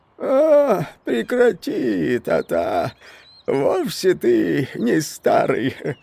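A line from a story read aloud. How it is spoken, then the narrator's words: Hoarse laughter. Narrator (Russian): хрипло засмеялся Личинкинс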